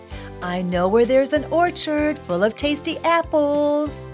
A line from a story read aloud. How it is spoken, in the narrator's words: he called sweetly